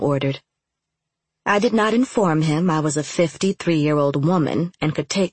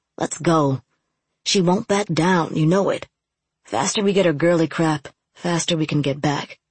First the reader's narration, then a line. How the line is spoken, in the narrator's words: Sniff tagged Rome's arm and muttered